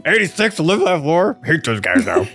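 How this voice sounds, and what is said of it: Imitates another person's voice. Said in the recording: “That's my Berserker impression.”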